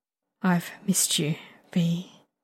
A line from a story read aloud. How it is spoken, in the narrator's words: he admits softly